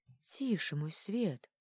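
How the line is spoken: Whisper. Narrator (Russian): прошептал он

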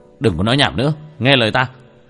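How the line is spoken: Sharp shout. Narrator (Vietnamese): Tiểu Thất quát lên một tiếng

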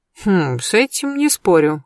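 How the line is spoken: Snort. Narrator (Russian): хмыкнул Берсеньев

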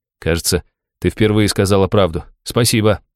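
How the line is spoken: Plain. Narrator (Russian): ответил

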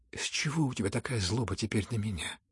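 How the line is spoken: Sad, fervent. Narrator (Russian): грустно и с жаром подхватил князь

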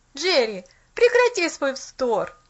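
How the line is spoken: Annoyed exclamation. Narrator (Russian): С досадой воскликнул он

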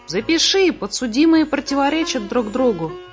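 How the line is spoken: Exclamation. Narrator (Russian): воскликнул Сниф

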